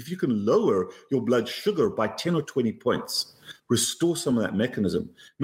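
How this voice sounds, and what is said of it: Cape Town accent. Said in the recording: “a couple confused about your accent ... he is Cape Townian, but living abroad”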